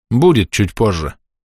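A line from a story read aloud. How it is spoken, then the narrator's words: Thoughtful remark over shoulder. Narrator (Russian): задумчиво бросил я за спину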